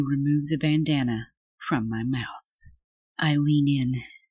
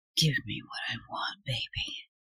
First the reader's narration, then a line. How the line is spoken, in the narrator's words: you say in a whisper